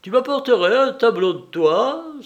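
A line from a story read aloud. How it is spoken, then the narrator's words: Exclaiming. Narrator (French): s'écria le Corse en frappant dans ses mains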